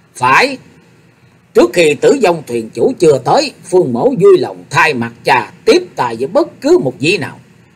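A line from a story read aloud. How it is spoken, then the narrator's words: Slow, mildly angry reply. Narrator (Vietnamese): Phương Sách hơi tức giận, thủng thẳng đáp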